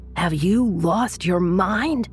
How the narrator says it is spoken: His friend screamed at him

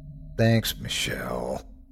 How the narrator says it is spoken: I groaned

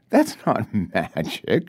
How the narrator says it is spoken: says, laughing

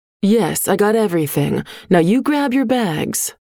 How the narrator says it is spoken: Mom said

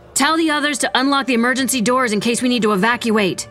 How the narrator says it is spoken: Vera shouted

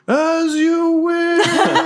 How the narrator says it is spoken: he just yells into the Thaumaturgical mic

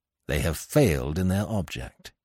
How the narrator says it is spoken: he added grimly

